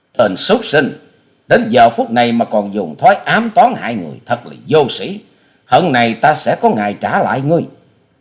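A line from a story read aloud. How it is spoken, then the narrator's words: Furious, hateful shout. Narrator (Vietnamese): Hoa Sĩ Kiệt quát căm phẫn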